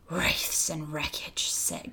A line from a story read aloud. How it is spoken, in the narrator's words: gasped Trumpkin in the ghost of a voice